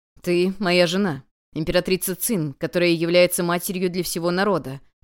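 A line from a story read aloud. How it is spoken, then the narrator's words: Serious tone. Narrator (Russian): серьезным тоном ответил император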